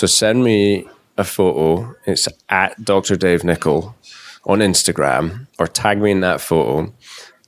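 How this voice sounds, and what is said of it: Non-American English accent. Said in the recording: “he was saying the word photo, not photo ... for those of you who are American and couldn't understand ... my accent”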